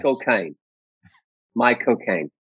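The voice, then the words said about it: Michael Caine impression. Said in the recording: “I'll teach you a flawless Michael Caine. most people learn to do an impression of him”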